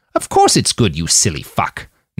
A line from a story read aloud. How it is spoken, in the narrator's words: Nanayazi snapped